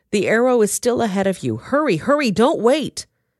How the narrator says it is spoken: Jonathan shouted

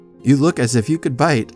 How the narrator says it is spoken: laughed the doctor

